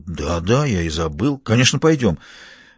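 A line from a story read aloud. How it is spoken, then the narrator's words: Muttered. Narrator (Russian): Эмиас пробормотал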